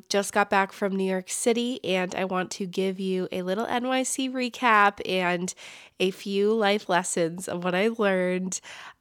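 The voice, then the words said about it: Slightly congested, sick-sounding voice. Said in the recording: “If you can hear in my voice, I have a little bit of a cold.”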